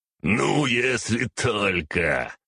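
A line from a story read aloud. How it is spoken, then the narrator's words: Loud laughter. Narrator (Russian): захохотал Архас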